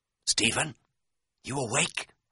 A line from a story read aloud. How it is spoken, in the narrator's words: I whispered